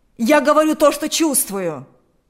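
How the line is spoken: Shouting. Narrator (Russian): закричал Игорь

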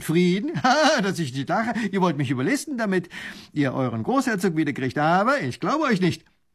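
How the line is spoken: Lieutenant laughing. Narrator (German): lacht der Leutnant

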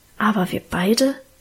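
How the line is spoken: Murmur. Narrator (German): raunte er

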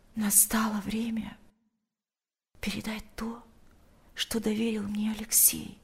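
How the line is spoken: Whispered in ear. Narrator (Russian): прошептала она ему на ухо

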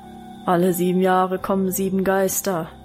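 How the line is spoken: Deep booming bass voice. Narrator (German): fiel Wilhelms Brummbass ein

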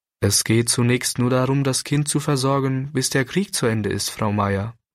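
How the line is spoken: Plain. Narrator (German): sagte der Pastor

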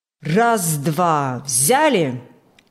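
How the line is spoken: Loud measured command. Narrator (Russian): Громко и размеренно командовал бригадир Иван Фокт

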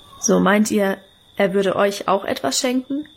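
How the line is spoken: Plain question. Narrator (German): fragte er

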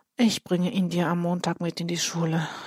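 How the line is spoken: Sighed. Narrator (German): seufzt Ole

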